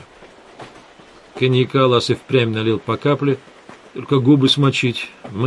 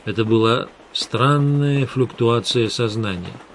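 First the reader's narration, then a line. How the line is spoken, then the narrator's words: Plain. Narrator (Russian): сказал Лас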